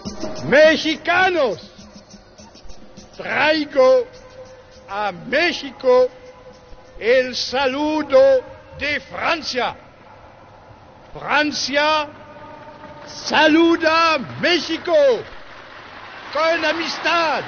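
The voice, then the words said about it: Very French accent speaking Spanish. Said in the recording (French): “il y a un accent très français, tellement français qu'on a l'impression de comprendre l'espagnol”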